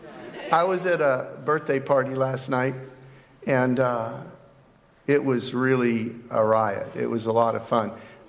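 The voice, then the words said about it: Hoarse, strained voice. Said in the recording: “Can you hear a little hoarseness in my voice? ... I ended up yelling a lot. So there's not much voice left”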